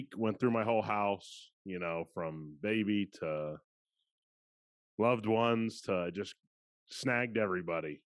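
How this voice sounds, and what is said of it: Sick, worn-out sounding voice. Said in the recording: “I'm selling coronavirus... for those that can hear it in my voice, it's just been a tough week”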